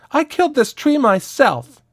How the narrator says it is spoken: A child shouted

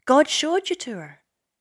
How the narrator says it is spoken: said Ursula eagerly, forgetting her calm facade in her excitement

